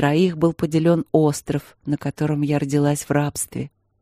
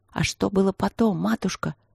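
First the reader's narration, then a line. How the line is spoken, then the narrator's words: Whispered question, spellbound boy. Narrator (Russian): шепотом спросил мальчишка, завороженно слушающий историю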